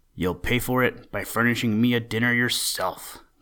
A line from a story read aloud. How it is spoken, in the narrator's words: growled Buster